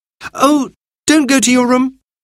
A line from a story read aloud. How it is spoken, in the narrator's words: cried Anthea